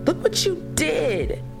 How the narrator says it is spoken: Lennon sobbed uncontrollably

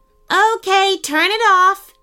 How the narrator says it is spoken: shouted Sean

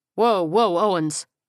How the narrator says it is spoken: Freeman stammered, suddenly realizing what was going on

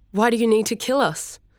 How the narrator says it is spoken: She asked, raising her voice and trying to pass it off as panic

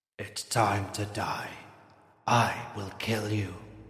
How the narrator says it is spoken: said in a low, guttural voice

